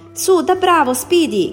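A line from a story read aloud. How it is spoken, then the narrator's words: Shouted. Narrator (Italian): gridò Powell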